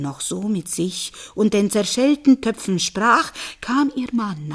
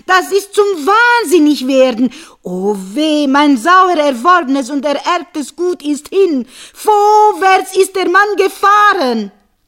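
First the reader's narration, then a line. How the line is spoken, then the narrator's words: Man shouting. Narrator (German): schrie der Mann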